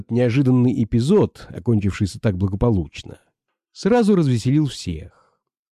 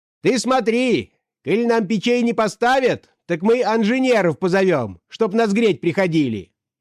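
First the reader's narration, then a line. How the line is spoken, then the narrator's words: Peasant woman shouting. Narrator (Russian): Крикнула та самая калужская баба, которой Квашнин приказал говорить за всех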